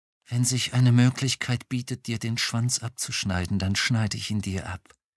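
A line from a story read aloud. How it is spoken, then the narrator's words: Very calm, controlled. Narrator (German): sehr ruhig und beherrscht sagte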